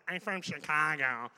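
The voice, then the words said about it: Exaggerated nasal Chicago accent. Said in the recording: “we have an accent here in Chicago ... they always make it sound like this ... You sound like you're holding your nose when you talk”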